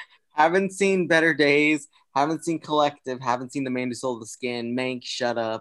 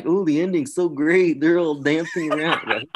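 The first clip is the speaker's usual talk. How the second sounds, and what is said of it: Good imitation of another person's voice. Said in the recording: “That was such a good Brett impression.”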